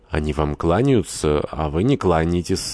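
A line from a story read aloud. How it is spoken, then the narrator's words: Plain. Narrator (Russian): сказал генерал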